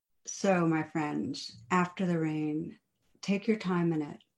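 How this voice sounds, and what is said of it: Strained, fading voice. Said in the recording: “losing my voice a little”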